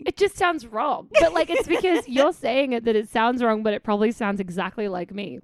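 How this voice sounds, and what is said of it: Australian accent. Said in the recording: “my lazy Australian accent”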